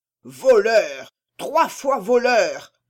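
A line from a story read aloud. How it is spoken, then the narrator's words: Roaring. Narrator (French): rugissait-il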